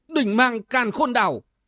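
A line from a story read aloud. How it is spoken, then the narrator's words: Sudden ringing shout. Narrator (Vietnamese): chợt nghe chàng quát vàng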